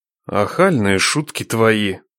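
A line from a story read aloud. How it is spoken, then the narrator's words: Grumbling. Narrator (Russian): проворчал Нечай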